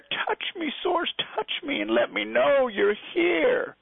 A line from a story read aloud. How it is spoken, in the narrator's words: the child cried in despair